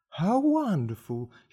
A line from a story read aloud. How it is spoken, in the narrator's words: he cried